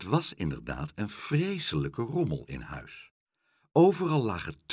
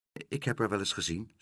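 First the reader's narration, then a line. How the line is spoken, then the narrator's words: Plain. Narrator (Dutch): zei Pluk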